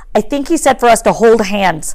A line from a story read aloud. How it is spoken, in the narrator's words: says Peeta